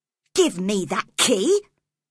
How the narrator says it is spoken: cried Cathy angrily

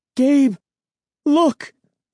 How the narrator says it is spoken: She cried

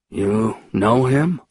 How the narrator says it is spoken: he asked quietly

